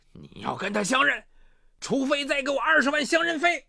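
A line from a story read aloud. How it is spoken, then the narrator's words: Fearful, sudden anger. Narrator (Chinese): 张平怕他说到做到，顿时恼怒道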